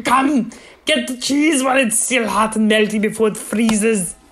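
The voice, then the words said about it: Imitates another person's voice. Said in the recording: “That was your Swiss accent? ... That's Arnold, just like Arnold doing a Swiss person. ... That's him as Mr. Freeze doing an ad for fondue.”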